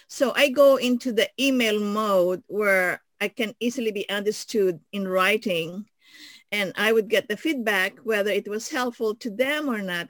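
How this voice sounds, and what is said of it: Filipino-accented English. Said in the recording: “I have this funny accent to most people. And unless I'm talking to my own people, my Filipino people, they can understand my accent and my voice and diction”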